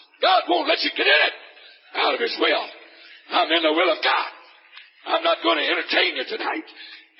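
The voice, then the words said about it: Rough, unbeautiful-sounding voice. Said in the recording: “with a voice like that ... my voice is not going to sound very beautiful”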